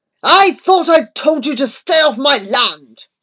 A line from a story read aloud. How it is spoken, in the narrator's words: he barked